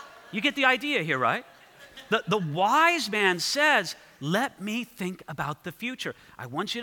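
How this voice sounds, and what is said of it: Usual voice. Nothing is said of it.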